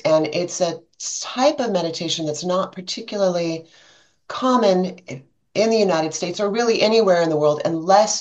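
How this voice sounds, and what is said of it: American English accent. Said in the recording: “you can tell by my accent, I'm in the United States”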